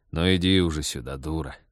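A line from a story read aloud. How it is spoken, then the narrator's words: Sigh. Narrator (Russian): вздохнул Станислав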